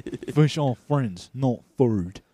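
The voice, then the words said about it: Imitates another person's voice, deeper. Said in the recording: “That's the accent you're doing... Sounds like Bear Grylls, like, but deeper voice.”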